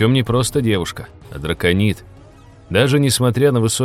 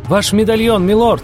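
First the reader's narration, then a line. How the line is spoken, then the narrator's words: Demanding shout, young woman. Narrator (Russian): требовательно прокричала девушка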